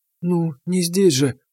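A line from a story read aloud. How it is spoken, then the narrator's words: Whispered. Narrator (Russian): шепнула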